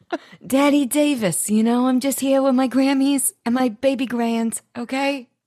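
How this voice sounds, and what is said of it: Put-on character voice. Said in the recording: “did this voice come this late in the reboot? ... we figured out Daddy Davis”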